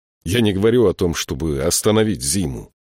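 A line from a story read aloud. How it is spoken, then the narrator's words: Irritated reply. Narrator (Russian): раздраженно ответил Саймон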